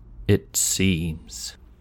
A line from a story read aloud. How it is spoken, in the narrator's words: paused, his voice uncertain